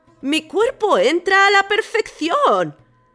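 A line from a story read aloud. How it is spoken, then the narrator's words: God exclaiming. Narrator (Spanish): el dios entró en el sarcófago y exclamó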